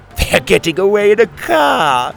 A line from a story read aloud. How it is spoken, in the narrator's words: one of the pirates laugh